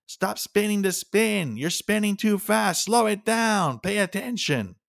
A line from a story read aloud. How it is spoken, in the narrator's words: short, stocky one yell